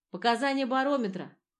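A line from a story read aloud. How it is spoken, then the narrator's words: Loud and clear. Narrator (Russian): его голос вновь зазвучал громко и четко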